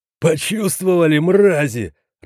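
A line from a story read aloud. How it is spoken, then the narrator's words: Laughing. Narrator (Russian): рассмеялся Кирилл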